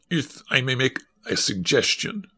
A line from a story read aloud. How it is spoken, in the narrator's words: said another Russian uneasily